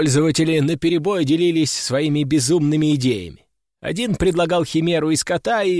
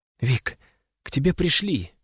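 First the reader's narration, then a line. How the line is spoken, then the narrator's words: Whisper. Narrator (Russian): прошептала она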